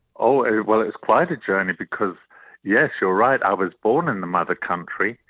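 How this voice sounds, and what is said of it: Slight English accent. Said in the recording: “a hint of an accent from across the pond, from you know, the mother country”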